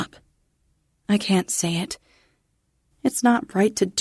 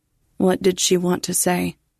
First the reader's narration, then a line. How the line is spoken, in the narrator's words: Katie asks, her voice flat on the line